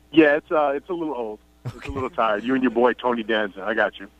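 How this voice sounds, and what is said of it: New York, Long Island accent. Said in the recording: “the New York thing ... everybody has something to say about my accent ... are you from Queens or Brooklyn, or are you from Long Island? He's from Long Island.”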